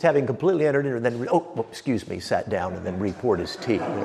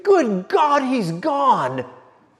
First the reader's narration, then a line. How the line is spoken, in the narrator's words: Lord Chesterfield shrieked